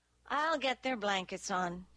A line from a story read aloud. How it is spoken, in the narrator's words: Izzy said